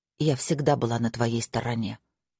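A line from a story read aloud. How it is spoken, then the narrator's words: Quiet. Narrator (Russian): тихо сказала Мира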